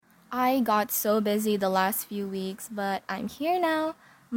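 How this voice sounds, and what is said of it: Rough, low-energy voice. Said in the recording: “My voice is a little rough, and my energy level is at a very low level”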